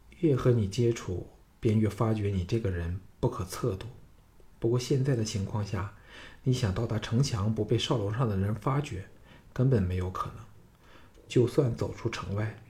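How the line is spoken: Amazed soft sigh. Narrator (Chinese): 季嫣然大为惊异，轻叹道

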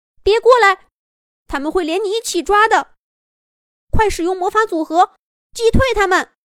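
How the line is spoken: Anxious shout. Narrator (Chinese): 小兔子着急的喊道

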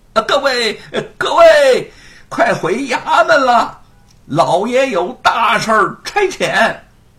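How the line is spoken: Distant shout from behind. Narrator (Chinese): 后面传来了喊声

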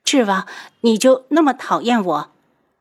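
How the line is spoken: Choked, tearful question. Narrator (Chinese): 被当众拒绝，宇文天香眼泪都要掉出来了，哽咽着问

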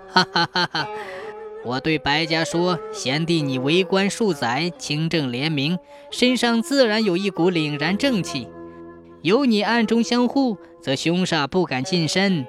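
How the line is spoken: Smug laughter. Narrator (Chinese): 书生得意的大笑

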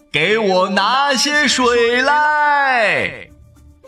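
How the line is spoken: Loud. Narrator (Chinese): 原野大声的回答

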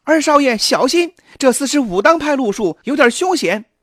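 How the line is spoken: Loud shout. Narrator (Chinese): 秋月对王陀高喊道

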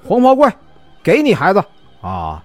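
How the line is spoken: Loud shout. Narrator (Chinese): 大喊

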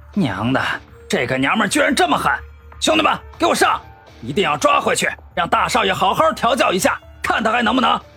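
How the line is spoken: Furious. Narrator (Chinese): 那些打手 怒不可遏

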